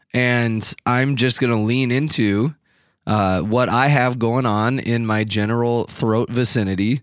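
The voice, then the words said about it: Husky sick-sounding voice. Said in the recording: “her sexy voice ... It's her sexy voice ... It doesn't sound good. it sounds fine”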